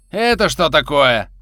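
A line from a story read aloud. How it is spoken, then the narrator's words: Watchman shouting. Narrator (Russian): закричал вахтенный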